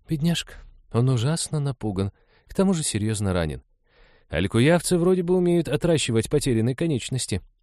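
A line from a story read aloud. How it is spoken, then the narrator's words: Uncertain. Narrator (Russian): неуверенно сказала Лиза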